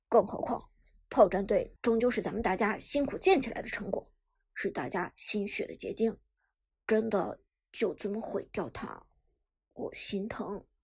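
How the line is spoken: Sighing. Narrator (Chinese): 黄山也叹道

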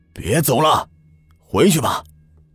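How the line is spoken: Stern old man's shout. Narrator (Chinese): 那老人厉声喝道

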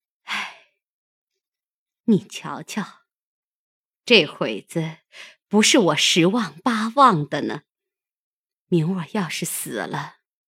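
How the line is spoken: Heavy sigh, then speaking. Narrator (Chinese): 凤姐 半日不言语，长叹一声，说道

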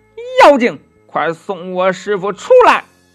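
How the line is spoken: Loud shout. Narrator (Chinese): 悟空 大声的叫喊

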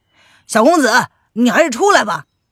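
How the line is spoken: Men shouting loudly. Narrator (Chinese): 徐龙等人……冲着车内大声的喊道

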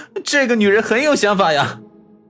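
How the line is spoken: Laughing. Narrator (Chinese): 边笑边说道

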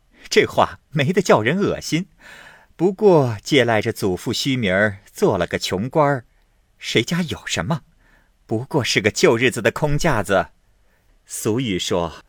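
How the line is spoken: Laughing. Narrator (Chinese): 凤姐儿笑道

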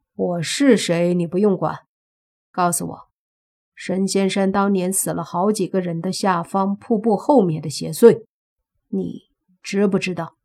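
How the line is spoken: Cool, detached. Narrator (Chinese): 他才淡淡的开口说

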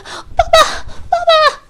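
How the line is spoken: Shouting. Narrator (Chinese): 他才喊完

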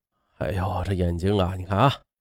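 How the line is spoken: Tired middle-aged man muttering. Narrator (Chinese): 这四十出头的老贾累的是眼珠子涩疼，嘀咕着

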